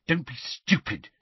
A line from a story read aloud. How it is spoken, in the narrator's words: she snarled